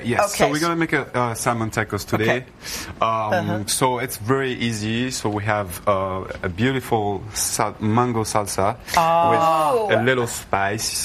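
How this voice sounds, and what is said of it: Speaks with a noticeable accent. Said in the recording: “we love your accent.”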